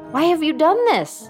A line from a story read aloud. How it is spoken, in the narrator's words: cried